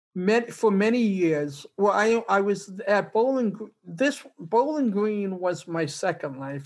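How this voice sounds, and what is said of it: Boston accent. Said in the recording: “back in Boston, as you may be able to tell from my accent... I love that accent.”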